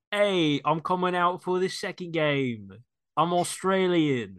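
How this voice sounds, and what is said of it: Poor put-on Australian accent, sounds British. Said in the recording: “This is a terrible accent. It's more British.”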